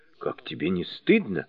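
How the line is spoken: Reproachful whisper. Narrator (Russian): укоризненно прошептал Джубадзе

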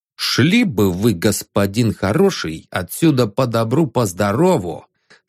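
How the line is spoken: Plain. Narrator (Russian): сказал он

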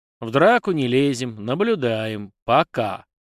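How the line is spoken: Grim. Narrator (Russian): мрачно закончила Магиня

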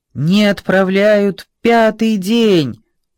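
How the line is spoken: Shouted by invalids. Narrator (Russian): закричали инвалиды

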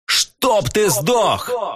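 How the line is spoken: Yell from above. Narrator (Russian): Провопили сверху

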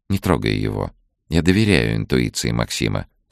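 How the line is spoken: Calm. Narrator (Russian): спокойно сказала та

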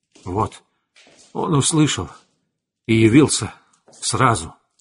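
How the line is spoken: Breathed out. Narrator (Russian): выдохнул Эверард

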